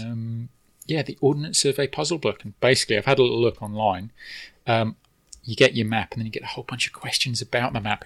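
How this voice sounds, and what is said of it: British accent. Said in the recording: “as you may be able to tell from my accent, I am from the UK originally”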